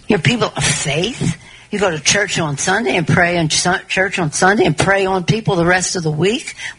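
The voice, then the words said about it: Faux southern accent. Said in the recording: “her accent seems to change ... Where did that southern accent come from? ... she debuts this faux southern accent”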